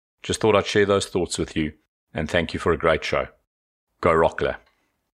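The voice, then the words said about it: South African accent. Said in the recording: “Good job with the accent ... that specific accent that has a little bit of an Australian, New Zealand kind of thing going on there ... South Africa”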